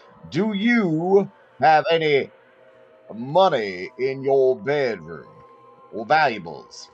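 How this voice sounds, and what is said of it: Speaks slowly and deliberately. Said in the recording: “say that slowly”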